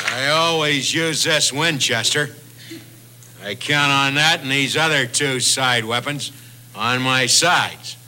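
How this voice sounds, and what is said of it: John Wayne impression. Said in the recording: “your impersonation of John Wayne protecting a fort”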